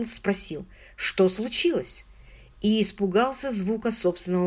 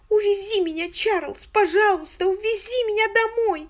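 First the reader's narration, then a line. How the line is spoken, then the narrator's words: Loud sobbing wail. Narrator (Russian): Она еще громче зарыдала с воплем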